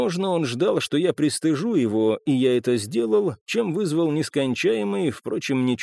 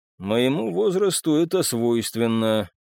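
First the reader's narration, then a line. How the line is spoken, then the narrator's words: Gloomy joke. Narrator (Russian): мрачно отшутился я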